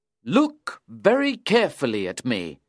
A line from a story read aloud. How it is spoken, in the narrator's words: Beckwith cried out